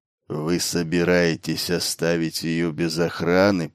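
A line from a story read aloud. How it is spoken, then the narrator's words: Disapproving grumble. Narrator (Russian): проворчал сержант неодобрительно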